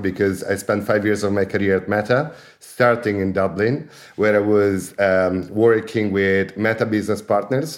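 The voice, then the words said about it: Italian accent. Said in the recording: “as you can hear from my accent, I'm Italian”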